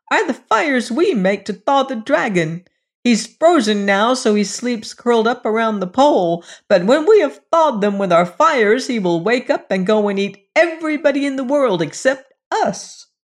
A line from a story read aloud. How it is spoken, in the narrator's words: shouted the dwarves, coming a step nearer